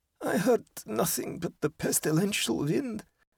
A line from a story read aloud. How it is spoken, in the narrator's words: said Georg hoarsely